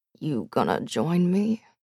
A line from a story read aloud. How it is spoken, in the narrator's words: Dag asked softly